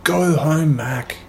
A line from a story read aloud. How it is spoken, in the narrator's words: Dave yelled